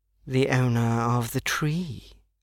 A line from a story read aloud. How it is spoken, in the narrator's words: purred